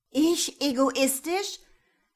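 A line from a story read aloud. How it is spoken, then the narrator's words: Indignant shriek. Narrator (German): kreischte Karin, außer sich vor Entrüstung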